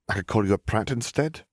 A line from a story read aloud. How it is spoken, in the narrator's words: Minerva offered dryly